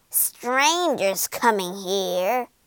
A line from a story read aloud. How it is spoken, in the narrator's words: she screeched